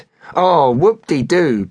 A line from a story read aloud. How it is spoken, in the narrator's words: Ping cheered sarcastically